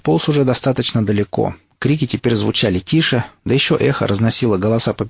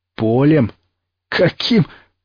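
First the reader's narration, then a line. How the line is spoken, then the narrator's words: Bear's hoarse laugh. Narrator (Russian): медведь хрипло рассмеялся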